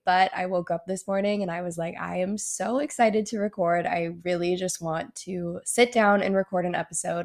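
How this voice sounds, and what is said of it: Slightly nasal, congested voice. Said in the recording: “I got a little bit of a sinus infection. So I was pretty sick for like 2 or 3 days... You might hear my voice is like a little bit nasally. So I do apologize if it doesn't sound that great.”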